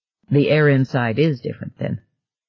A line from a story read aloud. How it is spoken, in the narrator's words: Gardner said